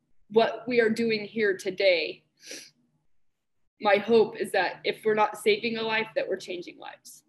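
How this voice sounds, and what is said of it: Emotional, raw voice. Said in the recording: “getting a little bit emotional ... getting a little raw there”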